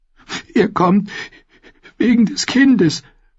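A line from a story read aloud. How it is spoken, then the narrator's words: Sobbing. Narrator (German): schluchzte Goldie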